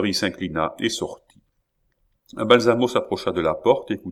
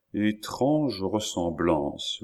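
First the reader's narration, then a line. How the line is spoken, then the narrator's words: Murmured. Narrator (French): murmura-t-il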